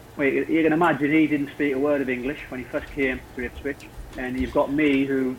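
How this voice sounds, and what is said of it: Northeast English accent, fast speech. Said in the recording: “Speaking 100 mile an hour ... with a northeast accent”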